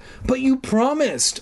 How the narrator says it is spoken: I cried

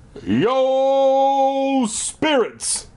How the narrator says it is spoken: Uncle Marv bellowed

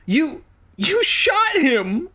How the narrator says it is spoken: I shrieked

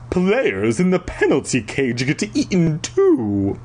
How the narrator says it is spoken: Flag snorted in disgust

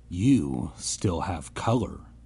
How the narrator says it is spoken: girl murmured

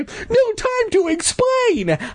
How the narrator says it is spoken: I gasped

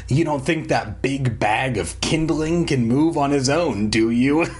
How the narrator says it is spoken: Slappy sneered

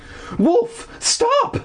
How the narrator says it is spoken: cried

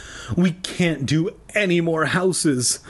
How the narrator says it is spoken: Lee exclaimed weakly

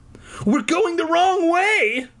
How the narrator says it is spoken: I cried

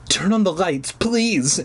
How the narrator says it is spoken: she pleaded

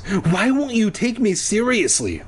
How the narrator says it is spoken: I cried through clenched teeth

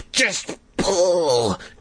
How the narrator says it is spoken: Carly Beth wailed

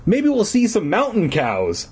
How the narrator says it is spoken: I exclaimed sarcastically

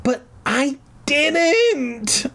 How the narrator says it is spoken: I shrieked

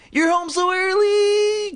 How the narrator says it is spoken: Chris exclaimed

